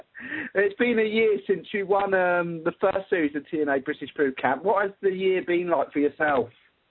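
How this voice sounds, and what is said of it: Strong British accent. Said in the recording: “how do you have a very acute British accent?”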